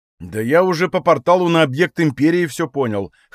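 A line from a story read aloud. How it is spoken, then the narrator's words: Smirking. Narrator (Russian): хмыкнул он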